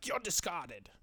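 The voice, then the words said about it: Flame character voice, poor accent. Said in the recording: “that was a horrible accent,... That's what he sounds like.”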